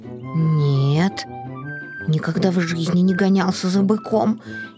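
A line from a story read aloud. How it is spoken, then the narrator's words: Frightened kitten. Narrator (Russian): испуганно ответил котенок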